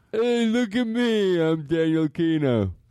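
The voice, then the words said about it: Dumbed-down imitation of another person's voice. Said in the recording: “do Daniel, but dumber ... Actually, that sound like him ... It does a little”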